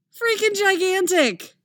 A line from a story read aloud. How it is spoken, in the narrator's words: she shouts back